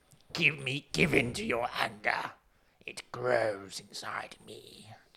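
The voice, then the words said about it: Imitates the Star Wars Emperor. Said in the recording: “Robot Chicken do Star Wars with the Emperor ... I think that's the impersonation I was doing. It's as opposed to the actual ... Emperor.”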